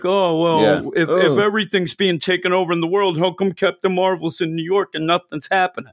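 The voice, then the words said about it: Mocking internet troll character voice. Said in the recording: “my voice of awful people on Twitter ... my big impression ... the troll people voice”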